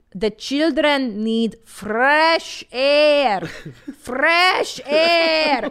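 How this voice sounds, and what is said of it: Put-on Hungarian accent. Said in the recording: “the secret that my Hungarian mother used to say ... you understand the accent ... I say it in my mother's accent”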